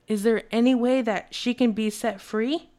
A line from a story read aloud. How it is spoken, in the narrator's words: asked frantically